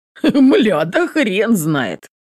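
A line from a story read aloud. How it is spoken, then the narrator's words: Chuckling reply. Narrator (Russian): Со смешком отзывается Соколовский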